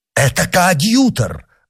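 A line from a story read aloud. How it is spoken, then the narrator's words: Exclaiming. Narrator (Russian): воскликнул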